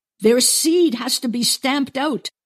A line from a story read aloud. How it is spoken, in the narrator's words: she shouts